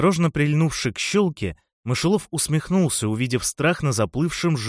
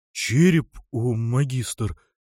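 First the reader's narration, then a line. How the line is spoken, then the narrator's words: Mournful trembling voice. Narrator (Russian): переспросил он похоронным дрожащим голосом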